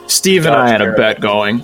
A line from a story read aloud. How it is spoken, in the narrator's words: Calmly, she tells him